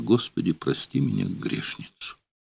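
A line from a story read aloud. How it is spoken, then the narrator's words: Barely audible, moaning sigh. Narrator (Russian): Анна Александровна судорожно вздохнула, будто застонала, еле слышно сказала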